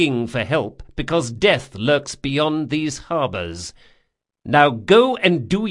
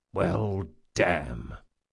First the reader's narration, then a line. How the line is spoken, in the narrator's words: muttered Jean